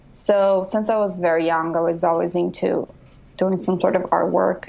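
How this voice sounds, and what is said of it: Brazilian accent. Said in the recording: “you obviously have an accent ... coming from Brazil”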